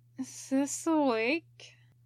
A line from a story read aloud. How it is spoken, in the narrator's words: Ryoma said, with the bludgeoned groan of the barely conscious